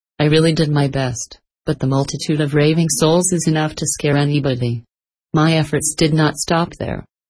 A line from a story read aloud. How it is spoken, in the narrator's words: proceeded our patient benefactor calmly